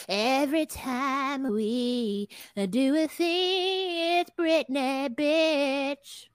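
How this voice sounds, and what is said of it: Imitates a pop singer's voice. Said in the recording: “my Britney impersonation.”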